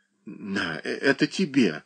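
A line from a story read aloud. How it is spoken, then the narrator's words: Barely audible mutter. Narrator (Russian): пробормотал Леонид едва слышным голосом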